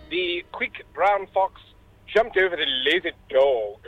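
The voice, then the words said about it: British English accent. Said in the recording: “in your best stiff upper lip ... Very, very good accent ... fantastic British English”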